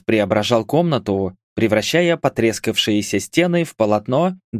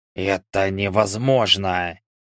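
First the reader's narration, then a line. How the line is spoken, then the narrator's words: Trembling whisper. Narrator (Russian): прошептал, и голос, обычно наполненный властью, дрогнул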